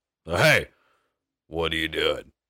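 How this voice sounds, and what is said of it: Stern dad voice. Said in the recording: “dad voice”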